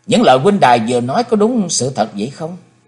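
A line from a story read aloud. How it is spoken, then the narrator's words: Stern cold question. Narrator (Vietnamese): chàng nghiêm sắc mặt lạnh lùng hỏi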